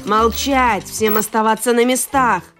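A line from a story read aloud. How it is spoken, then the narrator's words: Loud harsh male yell. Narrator (Russian): Громко и совсем не голосом Деда Мороза заорал один из мужчин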